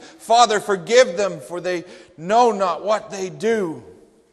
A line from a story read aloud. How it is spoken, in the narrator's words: Christ cried